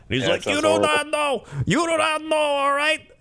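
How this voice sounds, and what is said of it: Weird Chicago-New York sportscaster voice. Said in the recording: “He has such a weird voice. ... He's like a weird, like, Midwest New York vibe. It's like a weird combo. He's got like the Chicago, like these guys, but he also has like a bit of New York.”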